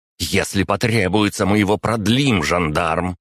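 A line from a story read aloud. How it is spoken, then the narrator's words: Barked interruption, countess. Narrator (Russian): рявкнула графиня, перебив его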